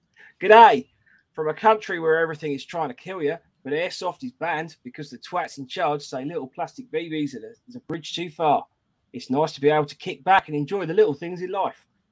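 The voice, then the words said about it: Put-on, slipping Australian accent. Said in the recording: “we read it out in an Australian accent ... You're going a little bit Dick Van Dyke on me.”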